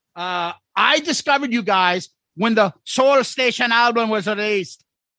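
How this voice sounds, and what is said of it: Put-on Irish accent. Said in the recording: “an Irish accent ... Is this offensive if I talk like this”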